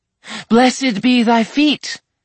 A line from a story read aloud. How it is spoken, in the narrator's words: Morgan cried